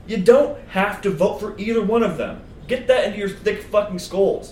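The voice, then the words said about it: Loud yelling rant. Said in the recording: “I'm yelling at the podcasters”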